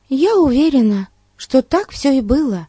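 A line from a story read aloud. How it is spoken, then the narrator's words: Exclaiming. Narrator (Russian): воскликнула Дейзи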